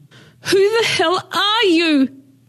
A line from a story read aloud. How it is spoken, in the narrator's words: she screamed